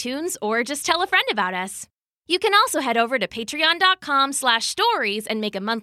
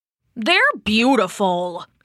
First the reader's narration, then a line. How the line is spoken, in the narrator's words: he grumbled to the other gods